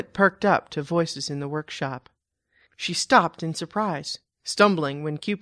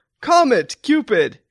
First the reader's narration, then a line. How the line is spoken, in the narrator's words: Claus boomed